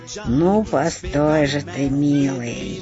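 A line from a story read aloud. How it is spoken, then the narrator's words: Witch's sly muttered hiss. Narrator (Russian): ехидно прошипела себе под нос колдунья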